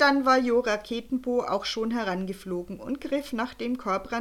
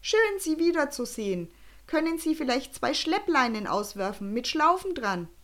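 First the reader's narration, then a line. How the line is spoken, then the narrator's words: Calling out. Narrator (German): rief Jo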